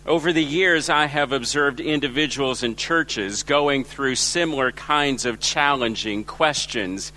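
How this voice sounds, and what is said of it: Los Angeles American accent. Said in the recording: “where's your accent from? My accent is from Los Angeles, where I was born and raised.”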